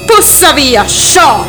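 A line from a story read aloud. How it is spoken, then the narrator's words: Spider shouting. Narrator (Italian): gridò il ragno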